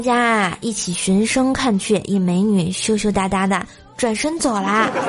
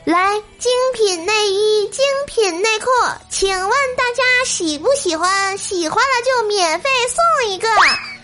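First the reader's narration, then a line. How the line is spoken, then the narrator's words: Loud announcer's voice. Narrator (Chinese): 宣传员在台上大声说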